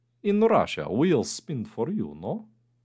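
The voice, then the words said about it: Put-on Russian accent. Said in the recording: “our little Russian mole ... I think the accent's there.”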